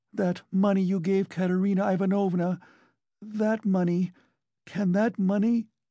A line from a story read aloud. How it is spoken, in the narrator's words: she cried suddenly